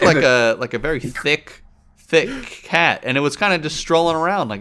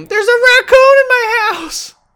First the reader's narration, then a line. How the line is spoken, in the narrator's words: scream